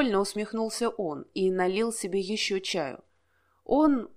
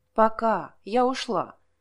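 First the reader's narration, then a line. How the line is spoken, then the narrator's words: Shout from another room. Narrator (Russian): крикнула девушка из прихожей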